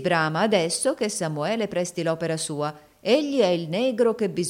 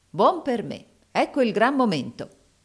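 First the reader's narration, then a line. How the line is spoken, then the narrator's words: Plain. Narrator (Italian): disse Samuele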